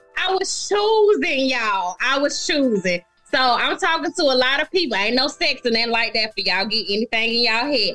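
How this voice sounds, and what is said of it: Slight regional accent. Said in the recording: “I'm from Decatur, and y'all know I got this little accent. I've always spoke this way.”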